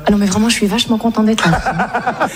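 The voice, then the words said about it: Put-on Parisian French accent. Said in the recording (French): “je parle un peu à la parisienne comme ça ... C'est pas mal, tu le fais bien, hein.”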